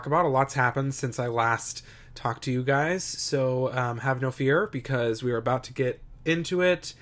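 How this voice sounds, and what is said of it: Slightly off, congested voice. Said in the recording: “I sound a little weird. I am recovering from a cold.”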